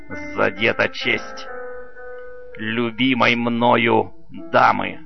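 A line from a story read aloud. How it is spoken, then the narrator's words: Through gritted teeth. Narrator (Russian): Филипп Марсель сквозь зубы говорит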